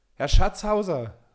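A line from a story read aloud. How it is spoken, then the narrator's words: Loud call. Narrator (German): rief er laut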